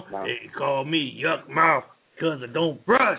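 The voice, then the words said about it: Sings imitating another performer. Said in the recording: “you do a good song impersonation of the Yuck Mouth”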